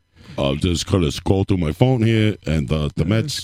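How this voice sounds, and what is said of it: Imitates another person's voice. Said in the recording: “I'm doing my Mike Francesa impression right now.”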